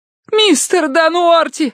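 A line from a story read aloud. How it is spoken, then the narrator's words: Yelled. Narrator (Russian): завопила Киврин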